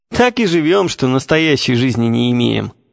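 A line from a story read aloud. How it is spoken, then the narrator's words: Half laughing, half crying. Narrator (Russian): отвечали глуповцы, и при этом не то засмеялись, не то заплакали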